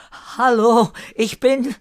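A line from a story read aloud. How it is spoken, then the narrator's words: Desperate call. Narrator (German): Verzweifelt rief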